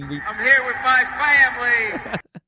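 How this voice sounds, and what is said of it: Put-on Southern accent, Ed Orgeron. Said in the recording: “he put like a vowel on the end of tiger. He didn't pronounce tiger with the R on the end ... a Southern accent ... I'll just pretend to be Ed Ogeron ... faking them”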